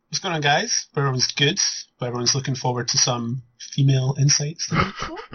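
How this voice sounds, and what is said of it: Smooth put-on radio voice. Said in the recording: “my radio voice ... Smooth, like chocolate.”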